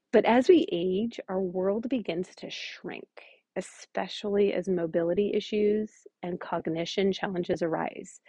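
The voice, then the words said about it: Strained, struggling voice. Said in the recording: “Sorry, it's early. I don't know why my voice is struggling.”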